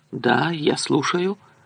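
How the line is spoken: Mumbling. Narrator (Russian): пробормотала

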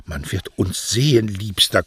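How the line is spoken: Panting. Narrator (German): keuchte Beatrice

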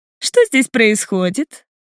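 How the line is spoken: Slightly sarcastic question. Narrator (Russian): Немного язвительно спрашивает

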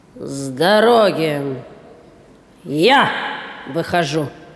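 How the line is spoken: Booming thunderous voice from car. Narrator (Russian): прогудел из машины громовой голос

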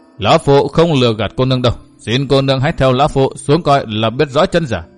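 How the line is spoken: Stern. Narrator (Vietnamese): Tư Mã Thảo nghiêm nghị đáp

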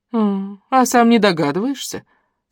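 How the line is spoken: Calm question, old woman. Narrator (Russian): спокойно вопросила бабуля

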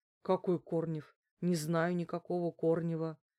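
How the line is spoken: Weak voice, moaning. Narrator (Russian): слабым голосом проговорил Неделькин и застонал

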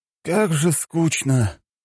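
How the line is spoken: Bored exhale, student. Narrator (Russian): выдохнул один из учеников

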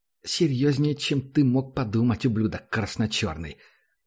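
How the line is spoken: Angry hiss. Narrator (Russian): зло прошипела

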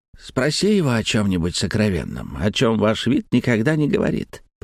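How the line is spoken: Cat purring. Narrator (Russian): промурлыкал оказавшийся у моих ног кот

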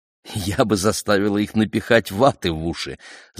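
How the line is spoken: Laughing. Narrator (Russian): засмеялась Роксана

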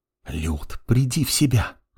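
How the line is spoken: Hissed. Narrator (Russian): зашипела на нее Елена Владимировна

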